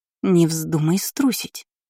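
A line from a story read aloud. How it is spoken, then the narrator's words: Hissing. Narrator (Russian): зашипела на нее Шарлотта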